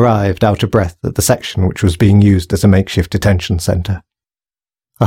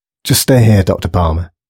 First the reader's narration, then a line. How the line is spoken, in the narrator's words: said one of the guards anxiously